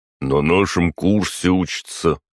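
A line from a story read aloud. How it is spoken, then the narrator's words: Deep bass voice. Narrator (Russian): пробасил один из наемников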